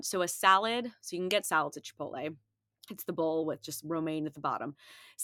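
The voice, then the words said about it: Breathless, stuffy-nosed voice. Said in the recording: “I'm like running out of breath because I'm still recovering from my cold. My nose is a little stuffy ... I'm like gasping for air”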